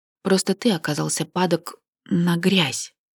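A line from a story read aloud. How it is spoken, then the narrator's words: Stated glumly. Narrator (Russian): констатировала уныло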